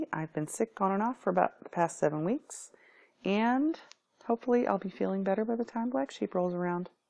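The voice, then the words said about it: Raspy, sick-sounding voice. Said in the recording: “excuse my voice. It's a little raspy and yucky.”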